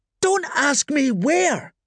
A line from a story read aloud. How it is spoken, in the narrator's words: she screamed